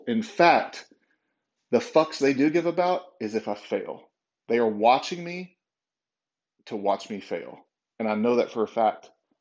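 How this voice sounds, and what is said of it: Angry-sounding, intense delivery. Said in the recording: “I sound angry.”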